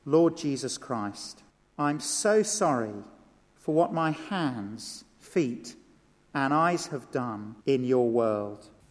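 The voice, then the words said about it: Slow, deliberate speech. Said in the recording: “say it slowly.”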